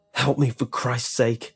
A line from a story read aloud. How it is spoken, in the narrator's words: he whispered anxiously